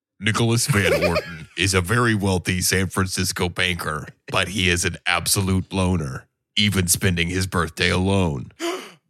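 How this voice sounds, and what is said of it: Imitates Anonymous hacker voice. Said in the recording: “your best Anonymous impression? ... you got to do the voice. ... Oh, that's good.”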